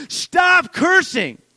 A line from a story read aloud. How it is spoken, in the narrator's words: If I was to scream at one of my daughters and begin to scream at them and say